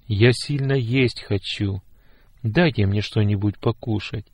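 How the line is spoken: Quiet plea, old man. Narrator (Russian): тихо попросил дедушка

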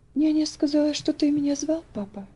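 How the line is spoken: Trembling voice. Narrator (Russian): дрожащим голосом проговорила Элси

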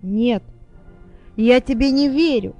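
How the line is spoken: Shout. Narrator (Russian): закричал мистер Джонс

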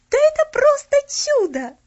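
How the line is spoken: Breathless, joyful laughter. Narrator (Russian): выдохнула Поллианна и радостно засмеялась

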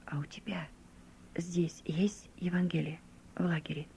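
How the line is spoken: Quiet insinuating question. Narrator (Russian): он тихо и вкрадчиво спросил у меня

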